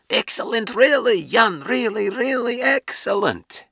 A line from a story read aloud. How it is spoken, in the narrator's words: Gomel yelled hoarsely